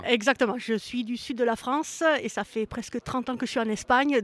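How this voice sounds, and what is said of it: French speaker with Spanish accent. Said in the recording (French): “ah oui, oh, l'accent espagnol, tout de suite ... j'ai pris l'accent espagnol”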